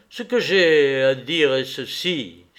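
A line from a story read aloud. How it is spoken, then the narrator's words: Exclaim. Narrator (French): s'écria-t-il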